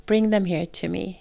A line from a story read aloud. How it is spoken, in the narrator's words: he said